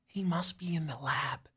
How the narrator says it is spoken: Jamie whispers

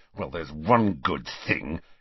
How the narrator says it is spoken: he said savagely

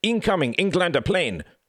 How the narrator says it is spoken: cried the wounded German, admiration in his eyes

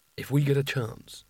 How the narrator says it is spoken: whispered Rincewind to Nigel

